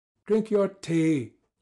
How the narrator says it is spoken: I said to her angrily

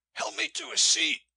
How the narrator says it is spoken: he said in the same hoarse, frightened voice

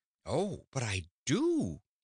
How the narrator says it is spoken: exclaimed Dorothy

